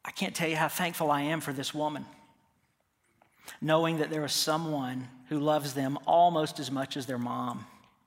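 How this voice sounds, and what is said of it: Choked up, emotional voice. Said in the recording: “get choked up again”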